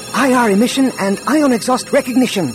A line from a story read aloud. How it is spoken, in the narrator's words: Droma said excitedly